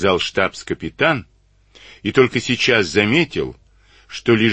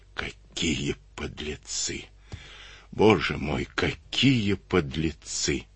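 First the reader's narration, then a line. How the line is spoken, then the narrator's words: Sobbing through clenched jaws. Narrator (Russian): Некрасов стиснул челюсти, но обида на людей и страшная боль, рванувшая тело сразу в трех местах, вызвали невольные рыдания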